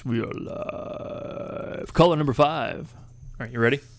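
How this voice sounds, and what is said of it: Deep radio announcer voice. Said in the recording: “Let me get my deep radio voice.”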